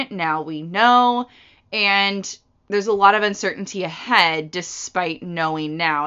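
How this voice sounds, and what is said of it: Deeper than usual, just-woke-up voice. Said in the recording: “my voice is a little deeper than normal. I just woke up”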